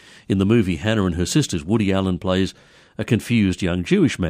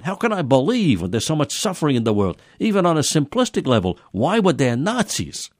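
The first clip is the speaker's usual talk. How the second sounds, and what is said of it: Put-on Jewish accent, Woody Allen. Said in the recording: “You like my Jewish accent?”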